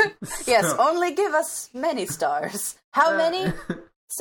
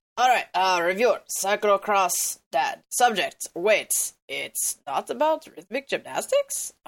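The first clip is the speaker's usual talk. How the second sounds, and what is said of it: Imitates a cartoon character's voice. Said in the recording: “my Strong Bad impersonation”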